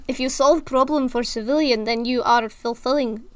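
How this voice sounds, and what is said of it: Put-on Russian accent drifting Scottish. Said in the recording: “Oh my gosh, I'm going into Scottish. ... I can't do this accent without going into Scottish. ... Russian.”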